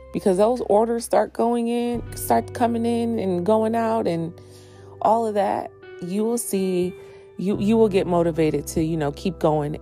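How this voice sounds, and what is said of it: Deeper voice than usual. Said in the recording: “my voice is a little deep today ... I kind of just woke up not too long ago”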